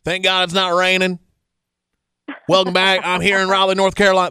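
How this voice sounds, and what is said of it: Imitates another person's voice. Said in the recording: “That's my Luke Bryan impersonation. ... That's not what I sound like.”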